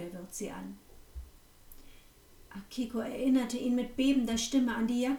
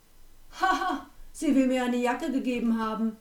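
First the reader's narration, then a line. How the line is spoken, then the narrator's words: Scornful laughter. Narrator (German): lachte der Wirt verächtlich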